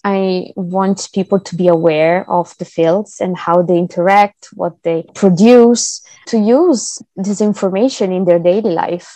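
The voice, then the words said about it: Speaks with a noticeable accent. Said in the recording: “just in case people are confused by your accent.”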